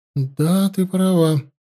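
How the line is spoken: Sighing. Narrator (Russian): вздохнула царевна

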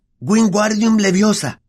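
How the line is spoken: Shouting. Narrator (Spanish): gritó

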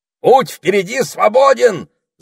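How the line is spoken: Parrot shouting. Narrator (Russian): закричал попугай

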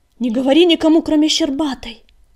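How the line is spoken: Shouted after someone. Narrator (Russian): крикнул ей вслед Огнегриф

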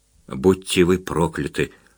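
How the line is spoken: Whisper. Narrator (Russian): шептал Успенский

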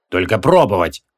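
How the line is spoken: Growl. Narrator (Russian): прорычал Креол

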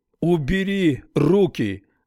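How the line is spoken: Shout. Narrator (Russian): закричал Харман

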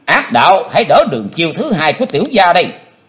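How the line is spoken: Deep, heavy shout. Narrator (Vietnamese): Chí Tôn trầm nặng thét lên

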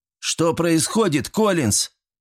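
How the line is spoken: Almost shouting. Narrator (Russian): Дима почти кричал

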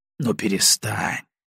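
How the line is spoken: Gentle, grandfatherly. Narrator (Russian): Баев заговорил мягко, как мудрый дедушка с неразумным внуком

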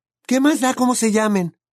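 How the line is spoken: Shriek. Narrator (Spanish): chilló Hermione

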